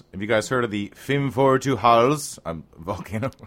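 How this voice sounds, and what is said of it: Unconvincing put-on Icelandic accent. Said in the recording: “Wow, what kind of accent was that supposed to be? ... Sweden? Iceland. ... he didn't sound anything like that. ... the Swedish accent for Iceland”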